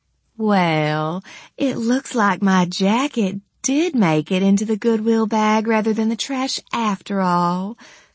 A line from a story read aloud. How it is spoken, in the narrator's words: she said in a smooth purr